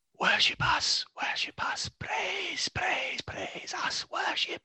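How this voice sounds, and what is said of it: Eerie whispering voice. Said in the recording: “a whispering”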